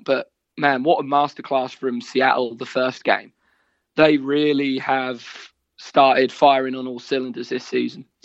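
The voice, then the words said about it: Strong Norfolk accent. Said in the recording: “two Norfolk people speak to each other, the more the accent starts to come out. You're getting more and more Norfolk”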